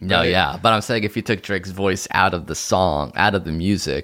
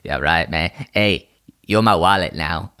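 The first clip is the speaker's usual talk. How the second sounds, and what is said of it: Imitates another person's voice. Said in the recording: “that's closer to your Drake impression”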